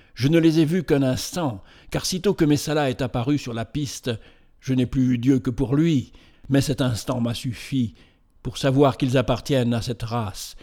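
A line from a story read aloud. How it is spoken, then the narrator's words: Animated exclamation. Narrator (French): s'écria Banur avec animation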